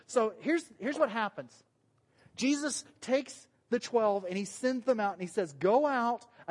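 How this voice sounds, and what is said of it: Southern American accent. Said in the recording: “My southern accent gets in the way sometimes”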